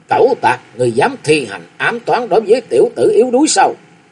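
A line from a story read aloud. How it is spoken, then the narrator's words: Shout. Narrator (Vietnamese): Theo tiếng quát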